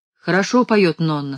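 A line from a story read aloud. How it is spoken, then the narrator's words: Plain. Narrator (Russian): сказал он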